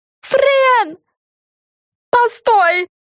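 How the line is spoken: Yelling, several voices. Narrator (Russian): завопили Карен

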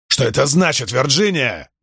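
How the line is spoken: Barking shout. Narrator (Russian): гаркнул он

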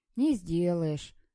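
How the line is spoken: Sighing. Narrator (Russian): вздохнул Андрюшка

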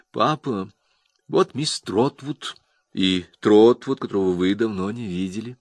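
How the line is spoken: Soft. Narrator (Russian): мягко сказала

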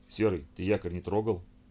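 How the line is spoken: Stern question. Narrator (Russian): строго спросил его Гена

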